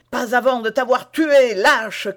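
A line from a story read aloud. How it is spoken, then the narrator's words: Shouted. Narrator (French): criait D'Artagnan, tout en faisant face du mieux qu'il pouvait et sans reculer d'un pas à ses trois ennemis qui le moulaient de coups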